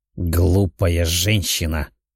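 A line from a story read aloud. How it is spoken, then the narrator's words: Growled. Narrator (Russian): рыкнул мужчина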